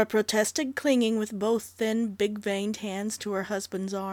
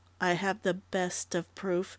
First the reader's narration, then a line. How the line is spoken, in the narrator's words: Dundee said quietly